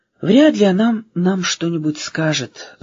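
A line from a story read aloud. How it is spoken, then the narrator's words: Sighing. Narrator (Russian): вздохнула буква А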